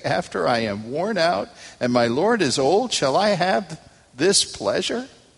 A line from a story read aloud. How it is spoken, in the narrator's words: Sarah laughed to herself, saying